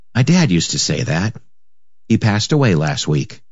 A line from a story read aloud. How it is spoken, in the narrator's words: The man whispered